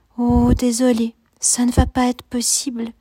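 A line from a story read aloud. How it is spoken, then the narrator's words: Whispered. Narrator (French): chuchote Esmeralda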